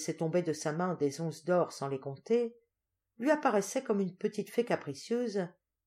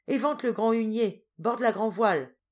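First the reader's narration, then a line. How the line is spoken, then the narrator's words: Officer shouting. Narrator (French): cria l'officier de quart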